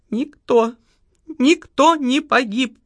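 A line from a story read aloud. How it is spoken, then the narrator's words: Speaking through sobs. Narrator (Russian): проговорила Лариса Львовна сквозь рыдание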